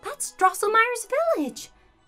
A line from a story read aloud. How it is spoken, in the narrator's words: exclaimed Marie